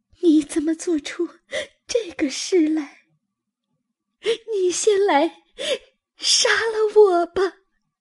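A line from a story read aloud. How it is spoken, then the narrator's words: Terrified crying. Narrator (Chinese): 黛玉吓得魂飞魄散，哭道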